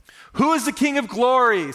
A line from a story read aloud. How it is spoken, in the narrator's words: Someone shouts